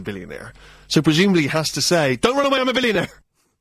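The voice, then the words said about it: Bristol accent. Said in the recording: “that Bristol accent coming out there”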